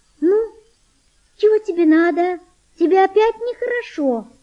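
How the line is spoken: High gentle voice. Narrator (Russian): сказала она тонким нежным голосом

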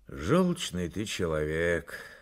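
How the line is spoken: Sighing. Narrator (Russian): вздохнул Фонарев

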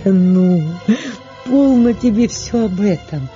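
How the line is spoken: Pleased, laughing. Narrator (Russian): Катерине Львовне было приятно это выражение Сергеевой ревности, и она, рассмеявшись

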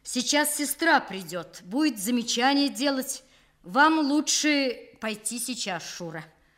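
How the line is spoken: Loud, after a cracked voice. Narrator (Russian): Он яростно откашлялся, рассердившись на свой сорвавшийся голос, и громко сказал

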